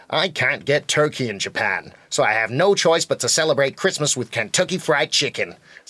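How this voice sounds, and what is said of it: Put-on American accent. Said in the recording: “So was that a good American accent? ... That was an amazing American accent”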